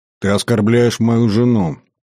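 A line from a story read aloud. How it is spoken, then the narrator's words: Through gritted teeth. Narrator (Russian): процедил Всеволод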